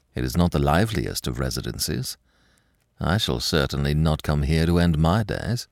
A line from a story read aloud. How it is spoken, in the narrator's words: muttered Lupin